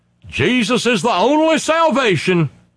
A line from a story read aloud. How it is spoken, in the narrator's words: somebody's coming towards you hollering